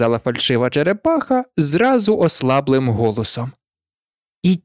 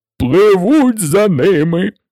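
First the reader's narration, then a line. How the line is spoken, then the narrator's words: Shrieking. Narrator (Ukrainian): верещав Грифон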